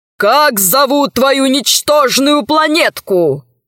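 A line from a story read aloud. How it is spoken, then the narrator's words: Shouting. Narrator (Russian): закричал адмирал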